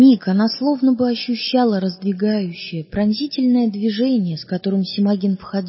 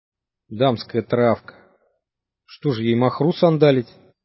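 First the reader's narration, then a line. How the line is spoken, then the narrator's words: Grumbling mutter. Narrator (Russian): пробурчал Семагин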